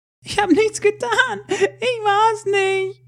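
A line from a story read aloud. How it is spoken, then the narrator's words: Young girl screaming. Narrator (German): schrie das junge Mädchen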